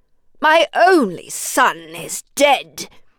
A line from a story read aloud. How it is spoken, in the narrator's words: Silifki hissed